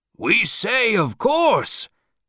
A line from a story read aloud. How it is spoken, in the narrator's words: somebody cried